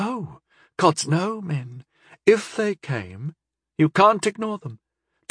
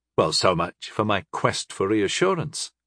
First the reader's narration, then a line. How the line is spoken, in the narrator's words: I replied dryly